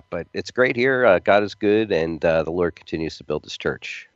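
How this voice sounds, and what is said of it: Slightly raspy voice. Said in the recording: “just getting over a cold here, so I apologize if my voice is a little raspy”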